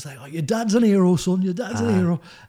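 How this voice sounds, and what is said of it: Put-on northern English accent. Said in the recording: “You sound like a Yorkshire man. ... That's because it's Manchester”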